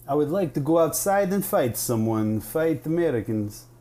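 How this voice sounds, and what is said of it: Thick put-on Russian accent. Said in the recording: “his accent is so real and thick ... You're a Russian agent.”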